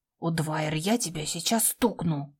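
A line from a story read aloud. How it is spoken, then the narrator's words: She-wolf growl. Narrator (Russian): рыкнула в ответ волчица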